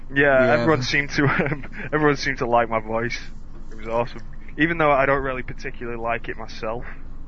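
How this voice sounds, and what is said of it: Non-American accent. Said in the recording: “It's my accent, man. They all love it. ... everyone's American. They've already heard accents from America”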